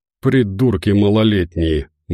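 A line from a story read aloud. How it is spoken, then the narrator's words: Gruff mutter. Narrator (Russian): буркнул Медведев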